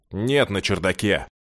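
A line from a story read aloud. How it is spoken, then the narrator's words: Irritated male reply. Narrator (Russian): так раздраженно откликнулся мужчина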